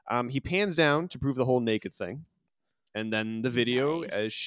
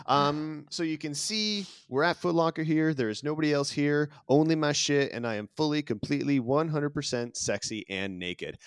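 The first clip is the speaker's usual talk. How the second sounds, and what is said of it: Put-on Snapchat influencer voice. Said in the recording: “I don't know why I'm doing the voice, but I'm doing the voice because that's what I imagine. ... That's what people put on a voice on Snapchat.”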